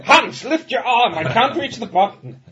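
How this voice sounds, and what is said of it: Put-on German accent. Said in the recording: “Only in a German accent ... A very good Frankenstein impression.”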